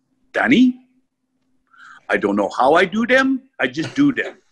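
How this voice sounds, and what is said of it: French accent. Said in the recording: “He turns to me in his French accent”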